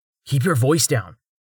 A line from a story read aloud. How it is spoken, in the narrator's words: Rain said urgently, lowering his own and glancing around as caution warred with excitement